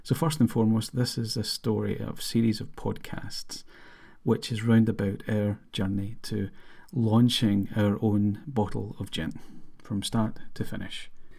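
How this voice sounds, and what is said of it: Scottish accent. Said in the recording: “as you can tell from the accent, from Scotland”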